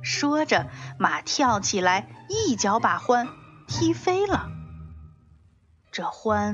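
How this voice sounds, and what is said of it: Usual voice. Nothing is said of it.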